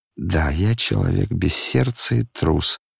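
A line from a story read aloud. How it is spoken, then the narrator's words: Gloomy male voice. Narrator (Russian): повторил он мрачно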